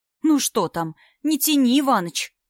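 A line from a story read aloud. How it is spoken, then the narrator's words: Sharp. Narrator (Russian): сказала Полина Петровна резко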